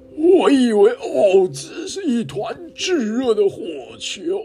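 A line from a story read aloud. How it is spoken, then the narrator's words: Startled cry. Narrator (Chinese): 狮子也惊叫道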